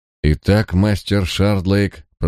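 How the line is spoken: Even tone. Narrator (Russian): промолвил он ровным тоном

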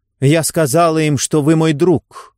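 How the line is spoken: Angry curt remark. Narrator (Russian): сердито бросила она в темноту

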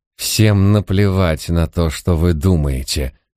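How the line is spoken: Hostile hiss. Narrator (Russian): прошипел он с прежней враждебностью

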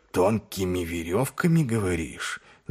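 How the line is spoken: Thoughtful mutter. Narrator (Russian): задумчиво пробормотал Ваймс

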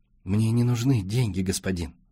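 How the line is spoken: Humble whisper. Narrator (Russian): смиренно прошептал Джибрил

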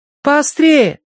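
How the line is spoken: Calling after someone. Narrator (Russian): крикнула вслед Киврин

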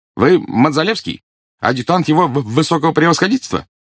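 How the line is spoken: Calm, resonant, carrying voice. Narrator (Russian): Заика не кричал, однако его спокойный, звучный голос без труда заглушил вой пурги

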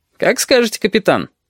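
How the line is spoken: Cheerful reply. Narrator (Russian): Бодро отозвался Бенецкий

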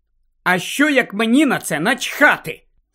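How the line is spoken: Angry question. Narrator (Ukrainian): сердито запитала Джинні

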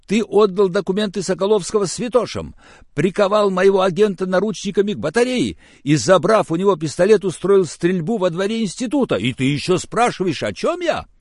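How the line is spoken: Very loud yelling. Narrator (Russian): Он орал так, что под конец мне даже пришлось отодвинуть трубку телефона от уха

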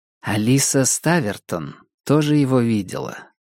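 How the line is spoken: Soft. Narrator (Russian): мягко произнесла Мишель

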